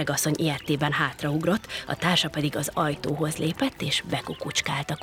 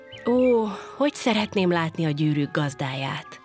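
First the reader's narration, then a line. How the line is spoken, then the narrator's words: Wistful sigh. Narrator (Hungarian): sóhajtott fel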